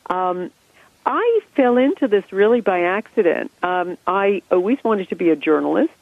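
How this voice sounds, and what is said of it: American accent. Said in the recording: “I grew up in America. You can hear that from my accent.”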